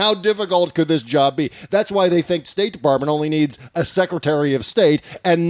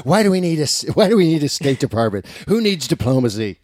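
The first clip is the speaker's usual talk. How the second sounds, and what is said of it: Impersonation sliding into old man voice. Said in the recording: “my Trump voice, by the way, is just becoming old man voice.”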